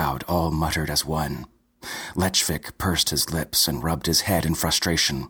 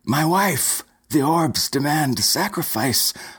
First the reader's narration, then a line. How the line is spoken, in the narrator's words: cried Stuart Stevenson